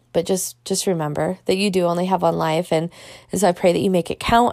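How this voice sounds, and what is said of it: Strained, tired voice. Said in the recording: “you can probably tell my voice is feeling strained”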